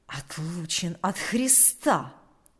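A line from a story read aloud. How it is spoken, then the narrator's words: Quiet hissing. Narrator (Russian): сказал он тихим, шипящим голосом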